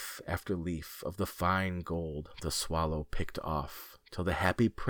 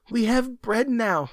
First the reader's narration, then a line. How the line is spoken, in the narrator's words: they cried